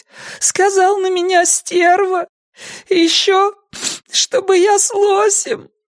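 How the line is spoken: Sobbing. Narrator (Russian): всхлипнула

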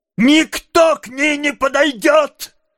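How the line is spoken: Angry man shouting. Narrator (Russian): злобно крикнул мужчина

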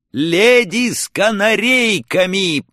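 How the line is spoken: Silly shouted reply. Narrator (Russian): по-дурацки прокричал я в ответ

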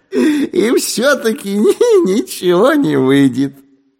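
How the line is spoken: Laughing. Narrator (Russian): засмеялся сыщик

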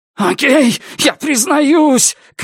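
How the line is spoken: Shouting, gasping for breath. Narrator (Russian): кричал он между прерывистыми вдохами

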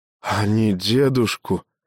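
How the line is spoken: Child forcing words out. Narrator (Russian): выдавил мальчик

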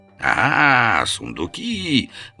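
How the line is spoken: Delighted howl, guard captain. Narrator (Russian): восторженно взвыл переодетый начальник стражи

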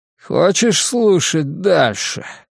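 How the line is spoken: Drunken question. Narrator (Russian): пьяным голосом спросил Дин Кьи

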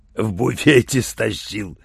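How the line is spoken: Proud growl. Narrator (Russian): с гордостью прорычал он

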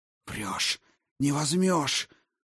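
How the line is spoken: Hoarse wheeze. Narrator (Russian): прохрипел Аррис

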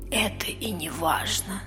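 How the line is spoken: Whispering. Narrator (Russian): прошептала Мия

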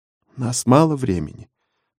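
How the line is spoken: Barely audible. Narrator (Russian): едва слышно проговорил скрипач

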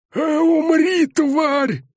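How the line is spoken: Bellow, brute. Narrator (Russian): заорал бугай

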